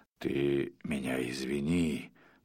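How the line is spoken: Whispered. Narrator (Russian): прошептал он

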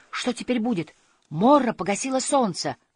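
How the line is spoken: Exclaimed. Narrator (Russian): он воскликнул

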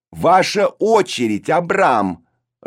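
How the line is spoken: Loud command. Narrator (Russian): распорядилась Броня громко

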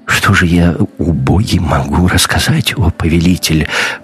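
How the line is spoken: Old man mumbling downward. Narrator (Russian): пробормотал старик в пол

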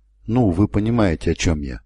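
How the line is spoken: Plain. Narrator (Russian): спросил Гриссел

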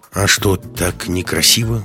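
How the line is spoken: Tired question. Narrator (Russian): устало спросила Маруся

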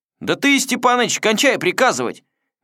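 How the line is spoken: Bold yet wary shout, young sailor. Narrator (Russian): Дерзко, но вместе с тем и опасаясь скорого на руку боцмана, крикнул молодой матрос

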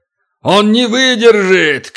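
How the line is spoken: Giant's alarmed shout. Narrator (Russian): крикнул великан, понявший, наконец, что делает Туран

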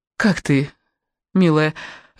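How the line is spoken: Timid question. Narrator (Russian): робко спросила Элла

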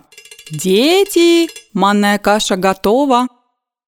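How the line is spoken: Loud calling. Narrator (Russian): зовет громко

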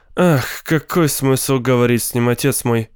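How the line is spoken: Glum, dejected. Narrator (Russian): уныло проговорила Рита

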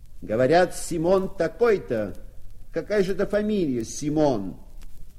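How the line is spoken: Shout. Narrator (Russian): Парень крикнул ему

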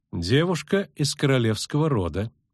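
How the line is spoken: Calm. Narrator (Russian): спокойно ответила Филиппа

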